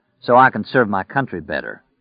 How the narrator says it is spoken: Stu said dryly

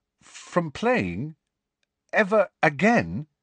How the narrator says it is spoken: he said, and his voice sounded strangely distant

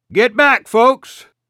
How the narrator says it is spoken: Ralph shouted

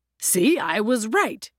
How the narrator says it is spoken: he always declared at the end

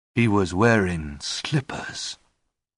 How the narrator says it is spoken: Lestrade said, in a strangely calm tone of voice

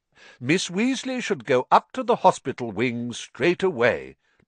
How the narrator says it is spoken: Dumbledore interrupted in a firm voice

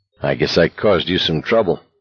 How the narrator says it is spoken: Garrity said in a low voice

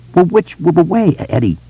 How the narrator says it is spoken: he asked urgently

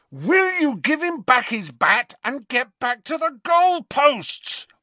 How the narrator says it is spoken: roared Harry

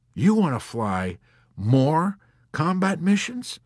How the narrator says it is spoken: Colonel Cathcart gasped

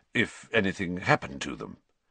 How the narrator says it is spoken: said Sirius stiffly

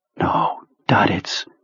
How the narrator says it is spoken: Henry whispered

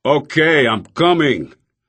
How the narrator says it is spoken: yelling angrily

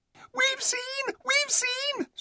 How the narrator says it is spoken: squealed the mice

